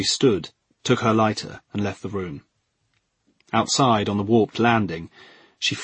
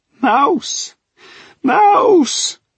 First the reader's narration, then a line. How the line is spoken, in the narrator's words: the mother, in a raw voice, was shouting